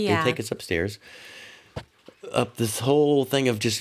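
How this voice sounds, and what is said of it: Usual voice. Nothing is said of it.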